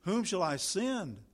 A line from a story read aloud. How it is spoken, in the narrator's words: it cries